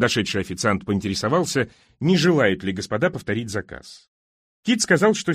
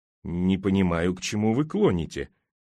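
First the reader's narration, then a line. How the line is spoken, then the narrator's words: Displeased grumble. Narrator (Russian): недовольно буркнул Кит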